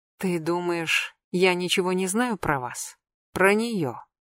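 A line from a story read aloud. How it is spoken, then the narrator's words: Quiet menacing question. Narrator (Russian): Все так же тихо, но с угрозой спросила Нателла Георгиевна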